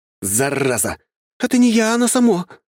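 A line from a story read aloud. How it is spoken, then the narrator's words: Shout. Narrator (Russian): закричала Василиса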